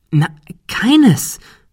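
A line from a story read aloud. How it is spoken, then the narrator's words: Excited explanation. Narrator (German): erklärte Ben aufgeregt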